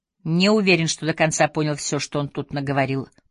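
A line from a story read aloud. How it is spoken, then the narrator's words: Grumbling. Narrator (Russian): проворчал Викрам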